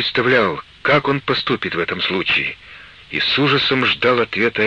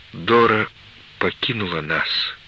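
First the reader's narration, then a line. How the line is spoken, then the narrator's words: Quiet. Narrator (Russian): сказала она тихо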